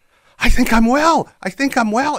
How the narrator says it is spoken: she started shouting

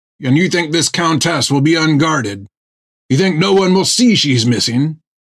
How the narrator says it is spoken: Finn snapped back at him in irritation

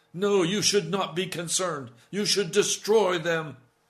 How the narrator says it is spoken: Jonah shout at God

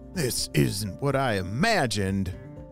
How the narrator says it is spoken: Fred groaned

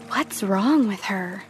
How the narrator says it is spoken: heard them whispering

